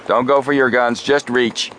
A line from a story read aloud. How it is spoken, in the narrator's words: Sheriff Kenner yelled